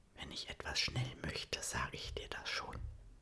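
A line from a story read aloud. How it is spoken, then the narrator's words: Whisper. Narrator (German): flüstert er ihr zu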